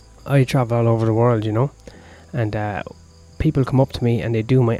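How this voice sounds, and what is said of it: Irish accent. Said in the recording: “my accent. I'm from Ireland.”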